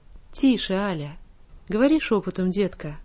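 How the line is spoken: Gentle man's hush. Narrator (Russian): ласково остановил ее молчащий до сих пор бледный господин в темном костюме

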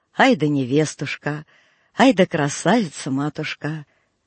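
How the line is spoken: Tender old man muttering. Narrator (Russian): старик только умилялся и бормотал

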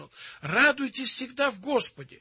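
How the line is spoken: Exclaiming. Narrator (Russian): Апостол Павел однажды воскликнул

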